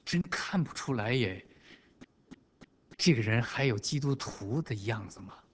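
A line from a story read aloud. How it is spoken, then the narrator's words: Inward muttering. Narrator (Chinese): 在朋友、在同事，甚至在自己家人的心里都在嘀咕着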